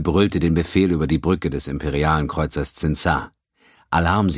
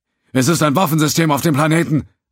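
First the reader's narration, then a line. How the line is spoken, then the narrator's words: Officer calling back. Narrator (German): rief Lieutenant Tonar, der taktische Offizier, zurück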